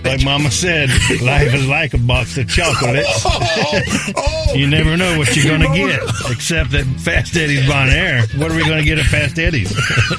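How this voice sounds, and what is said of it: Forrest Gump impression. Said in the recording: “my best Forrest Gump impression”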